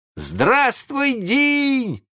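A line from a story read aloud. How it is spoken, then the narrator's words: Surprised boys shouting. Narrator (Russian): закричали удивленные мальчишки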